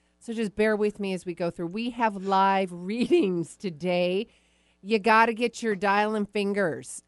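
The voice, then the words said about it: Congested, stuffy-nosed voice. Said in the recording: “I have a little cold. ... My ears are a little plugged. My nose is a little plugged.”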